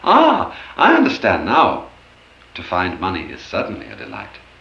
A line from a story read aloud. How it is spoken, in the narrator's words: with a cry of joy he exclaimed